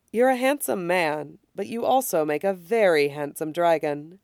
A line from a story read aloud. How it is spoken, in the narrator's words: he says gently